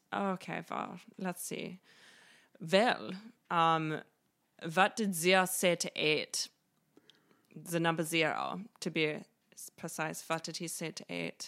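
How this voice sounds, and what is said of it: Put-on German accent. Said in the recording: “make me laugh with a joke right now in a German accent ... because of the German accent”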